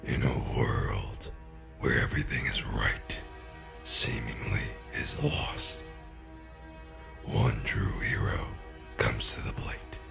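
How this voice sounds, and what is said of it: Dramatic movie trailer voice. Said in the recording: “The whole movie trailer thing is too serious.”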